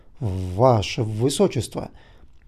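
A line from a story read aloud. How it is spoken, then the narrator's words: Ashamed, stammering. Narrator (Russian): Краснея и обливаясь потом от стыда, он, запинаясь, произнес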